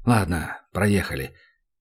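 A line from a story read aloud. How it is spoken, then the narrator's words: Exhaling, mumbled grumble. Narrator (Russian): Данил шумом выдохнул, буркнул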